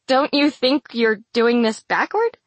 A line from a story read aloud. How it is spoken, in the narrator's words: Vale laughs with me